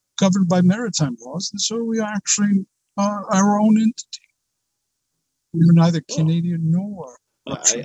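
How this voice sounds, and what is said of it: Maritime accent. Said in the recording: “I can hear the accent, the maritime accent.”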